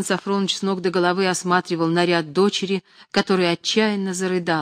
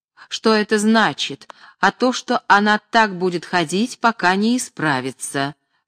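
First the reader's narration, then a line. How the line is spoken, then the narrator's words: Plain. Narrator (Russian): сказала Наталья Кирилловна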